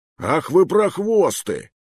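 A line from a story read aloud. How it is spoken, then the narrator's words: Shouted. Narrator (Russian): выкрикнул Хуан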